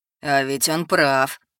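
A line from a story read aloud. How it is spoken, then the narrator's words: Chuckling. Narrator (Russian): хохотнул Соулс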